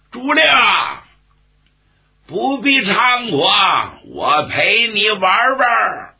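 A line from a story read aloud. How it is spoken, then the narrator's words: Loud shout. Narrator (Chinese): 台下有人高声喊喝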